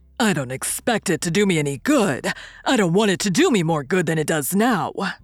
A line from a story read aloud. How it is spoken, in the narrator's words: said my convict with a greedy laugh